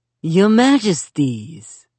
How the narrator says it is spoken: Li Bai slurred

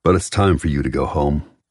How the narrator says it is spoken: Aiden adds firmly

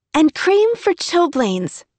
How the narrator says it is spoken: Emmy said happily

